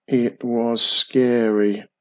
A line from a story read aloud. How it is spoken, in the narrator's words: the old man said nervously